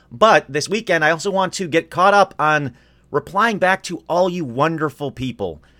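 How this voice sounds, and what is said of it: Hoarse, rough-sounding voice. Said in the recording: “As hoarse as I am, as weird as I sound”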